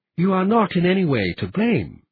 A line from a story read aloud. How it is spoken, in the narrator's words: Admiral Lalwani said